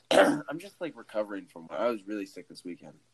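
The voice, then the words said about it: Sick, deeper-sounding voice. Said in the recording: “You're sick. I can hear it in your voice. ... Do I sound a little deeper?”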